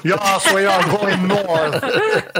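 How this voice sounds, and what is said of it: Put-on German accent. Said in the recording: “doing my German accent.”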